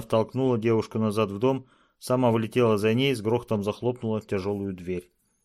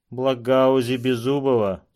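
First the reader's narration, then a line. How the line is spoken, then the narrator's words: Indifferent tone. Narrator (Russian): сообщил он безразличным тоном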